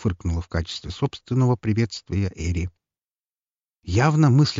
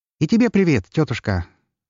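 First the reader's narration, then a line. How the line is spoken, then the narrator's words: Cheerful, sarcastic greeting. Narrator (Russian): Весело, но не без сарказма поприветствовал ее Лар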